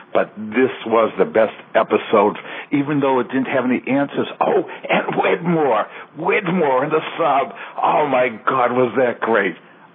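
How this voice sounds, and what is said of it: Excited, animated voice. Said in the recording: “I am so excited. I bet you can't tell by my voice.”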